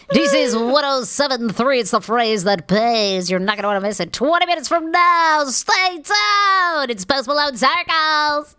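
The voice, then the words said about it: Radio DJ impression. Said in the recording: “that's your impression... the radio DJ... The only impression I can do. That's actually good.”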